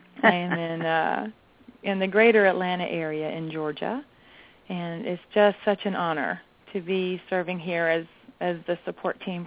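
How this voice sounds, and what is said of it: Southern US accent. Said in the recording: “I hope you enjoy my nice southern accent.”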